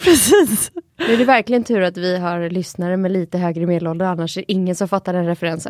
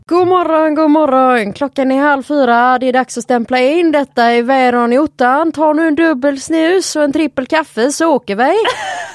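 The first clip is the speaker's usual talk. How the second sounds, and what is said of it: Put-on Gothenburg Swedish accent. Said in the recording (Swedish): “kan du dra den på göteborgska?”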